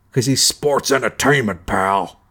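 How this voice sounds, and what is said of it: Imitates another person's voice. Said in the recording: “There's your impression.”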